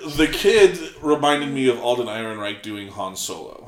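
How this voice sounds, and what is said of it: Usual voice. Nothing is said of it.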